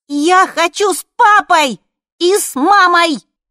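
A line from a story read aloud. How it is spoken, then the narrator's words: Shouting again. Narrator (Russian): он крикнул еще раз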